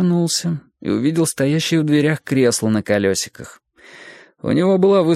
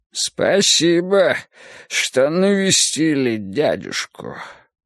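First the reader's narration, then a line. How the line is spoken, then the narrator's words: Hoarse voice from behind. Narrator (Russian): раздался хриплый голос у нас за спинами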